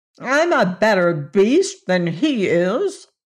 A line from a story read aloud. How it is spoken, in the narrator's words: retorted the Woozy indignantly